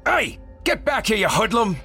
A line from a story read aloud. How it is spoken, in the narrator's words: the engineer barked